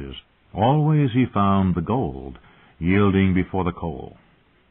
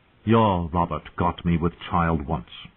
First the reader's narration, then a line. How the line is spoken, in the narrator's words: she said, her voice thick with contempt